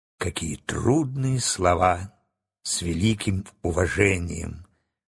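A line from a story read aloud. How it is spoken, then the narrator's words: Whispered by a crow. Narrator (Russian): прошептала ворона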